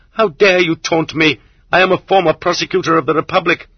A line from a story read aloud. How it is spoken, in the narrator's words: the Zek shouted hysterically